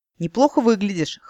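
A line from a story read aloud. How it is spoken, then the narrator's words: Amused grunt. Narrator (Russian): хмыкнул Вузелин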